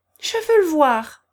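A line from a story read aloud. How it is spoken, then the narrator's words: Brisk reply. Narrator (French): reprit vivement Élisabeth Prokofievna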